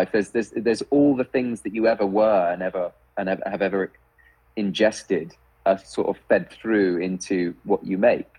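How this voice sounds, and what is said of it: British accent. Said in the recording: “it's your accent ... It's an accent that's out of place. ... British”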